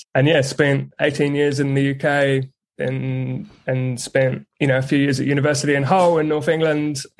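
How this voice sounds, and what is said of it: English speaker with adopted Kiwi accent. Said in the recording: “I do sense a Kiwi accent. You've adopted it quite well because I know you're from the UK. ... mutt of an accent”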